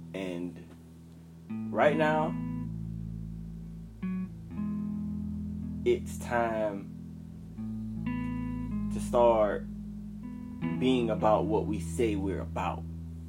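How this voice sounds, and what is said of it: Slightly cracked voice. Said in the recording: “my voice is a little cracked right now, I just came out of a meditation or out of prayer”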